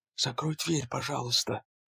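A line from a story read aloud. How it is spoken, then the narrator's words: Muttered. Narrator (Russian): бормотала Марджери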